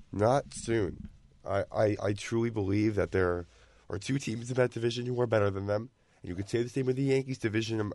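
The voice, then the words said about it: Slightly raspy voice. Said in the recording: “my voice is a little raspy right now”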